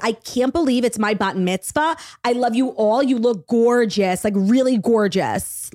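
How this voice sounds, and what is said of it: Thick Long Island accent. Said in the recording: “a really, really annoying Long Island accent ... so thick”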